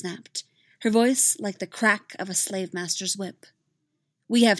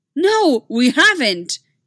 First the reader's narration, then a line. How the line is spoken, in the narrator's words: she cried